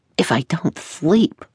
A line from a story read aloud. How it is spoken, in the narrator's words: said, forcing a smile as he murmured under his breath